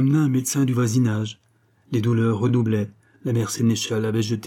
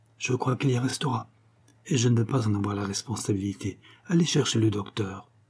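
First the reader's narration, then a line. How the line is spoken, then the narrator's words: Said quietly. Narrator (French): dit tout bas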